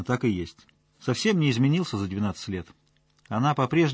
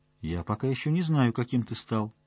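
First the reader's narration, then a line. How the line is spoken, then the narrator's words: Soft reply. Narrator (Russian): мягко ответила она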